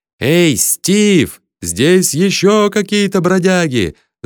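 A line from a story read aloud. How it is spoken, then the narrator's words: Yell. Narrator (Russian): заорал Бат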